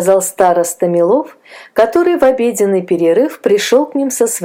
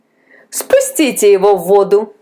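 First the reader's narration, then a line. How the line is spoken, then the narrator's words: Laughing. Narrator (Russian): засмеялся Илья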